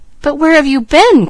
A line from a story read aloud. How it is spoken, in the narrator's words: cried the boy